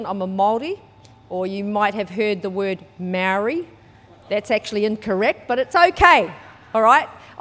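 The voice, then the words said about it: New Zealand accent. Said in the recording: “I was brought up in New Zealand. You might be able to tell by my accent, even though I haven't lived there for years.”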